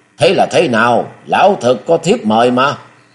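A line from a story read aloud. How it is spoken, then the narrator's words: Hurried alarmed cry. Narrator (Vietnamese): lão vội la lên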